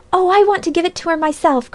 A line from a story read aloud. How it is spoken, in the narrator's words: cried Phronsie